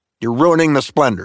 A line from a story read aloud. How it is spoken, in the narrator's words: snapped Kelsey Grammer to the paparazzi